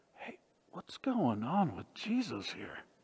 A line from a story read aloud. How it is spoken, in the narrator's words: whispering